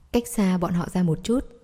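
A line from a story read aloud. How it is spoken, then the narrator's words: Low-voiced reminder. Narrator (Vietnamese): Đường Hải Trình anh hạ giọng nhắc nhở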